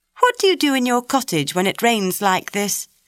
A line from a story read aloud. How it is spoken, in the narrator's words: she asked Martha